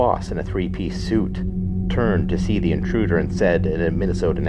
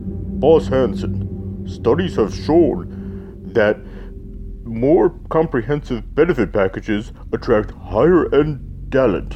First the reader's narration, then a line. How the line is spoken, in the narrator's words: A large man in a deep voice said